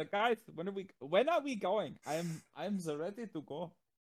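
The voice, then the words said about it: Bad put-on German accent. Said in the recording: “That was a terrible German accent. ... That was horrible.”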